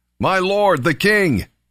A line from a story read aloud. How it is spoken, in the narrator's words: David came out and shouted after him